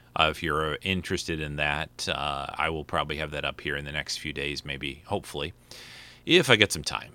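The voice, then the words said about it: Strained, fading voice. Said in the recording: “my voice is kind of dying”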